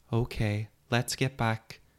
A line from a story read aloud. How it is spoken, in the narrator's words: sighed